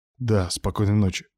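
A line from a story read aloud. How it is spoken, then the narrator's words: Muttered. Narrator (Russian): буркнул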